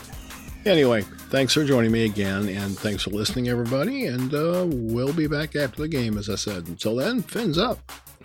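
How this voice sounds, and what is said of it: Voice sounds impaired. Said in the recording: “Forgive my voice. I've got a little problem”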